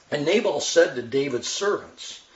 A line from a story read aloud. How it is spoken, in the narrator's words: said this in a sneering tone